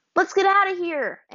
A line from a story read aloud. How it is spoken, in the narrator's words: Aang shouted, which also added to the noise